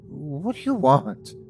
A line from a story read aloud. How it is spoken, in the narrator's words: I stuttered back